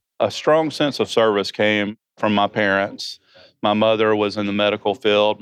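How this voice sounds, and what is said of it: Georgia accent. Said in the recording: “It sounds maybe like you're from Georgia, right? ... I am from Georgia. So if you don't understand what I'm saying because of my accent”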